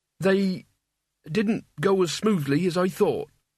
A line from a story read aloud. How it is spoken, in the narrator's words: said Mort, standing nervously